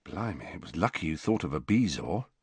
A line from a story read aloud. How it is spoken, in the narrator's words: said George in a low voice